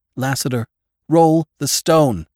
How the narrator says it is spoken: cried

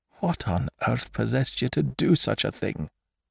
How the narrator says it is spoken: he whispered, with the awe of genuine terror in his voice

